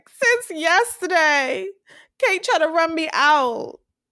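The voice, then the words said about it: Crying, whiny voice. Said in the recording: “I like how you do her cry voice right now... She's a cry baby.”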